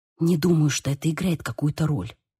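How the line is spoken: Whispered reply. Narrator (Russian): прошептала в ответ

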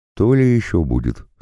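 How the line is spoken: Calm reply. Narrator (Russian): спокойно ответил я

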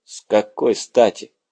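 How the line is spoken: Gloomy question. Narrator (Russian): мрачно поинтересовался Грант

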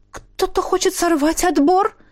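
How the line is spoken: Frightened question. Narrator (Russian): испуганно спросила, кажется, Вильгельмина Парей

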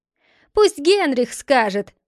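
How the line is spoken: Crowd shouting. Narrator (Russian): закричали в толпе

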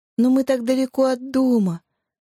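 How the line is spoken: Strained, sobbing girl. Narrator (Russian): с трудом выдавила девочка между всхлипами

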